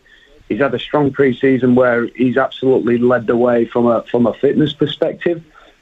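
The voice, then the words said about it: Yorkshire accent. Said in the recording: “I love the accent. I love that Yorkshire accent.”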